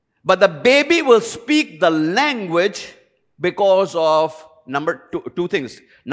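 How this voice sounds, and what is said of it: Speaker with a foreign accent. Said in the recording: “you know, he has an accent ... our accent comes from where we have been ... same thing in India”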